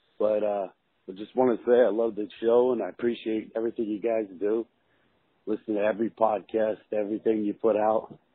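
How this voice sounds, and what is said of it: Sick, strained voice. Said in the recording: “Sorry about my voice. I'm getting over a little bug that I caught.”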